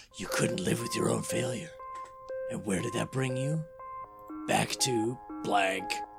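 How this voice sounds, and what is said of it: Impression of Thanos's voice. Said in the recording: “I'm going to have to do his voice ... Thanos”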